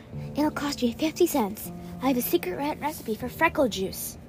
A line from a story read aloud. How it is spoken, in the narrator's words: Sharon whispered